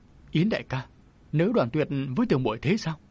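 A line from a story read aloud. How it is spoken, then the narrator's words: Anguished, tearful, trembling voice. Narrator (Vietnamese): Lăng Vân Yến đau khổ bật khóc, giọng nàng run rẩy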